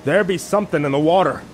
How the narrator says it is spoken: one of the men shouted out

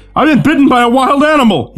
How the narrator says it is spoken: he screamed

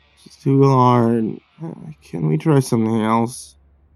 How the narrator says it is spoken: Josh replied wearily

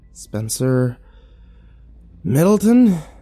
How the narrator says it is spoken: said with a sigh

